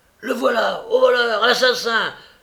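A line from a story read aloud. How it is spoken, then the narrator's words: Shouting at the top of voice. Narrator (French): criant à tue-tête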